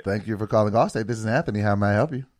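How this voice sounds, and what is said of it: Polite customer service phone voice. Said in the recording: “That's my customer service voice.”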